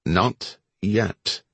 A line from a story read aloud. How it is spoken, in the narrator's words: Cope said, in an icy tone that ended all discussion